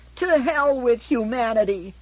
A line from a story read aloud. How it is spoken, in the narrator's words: shrieked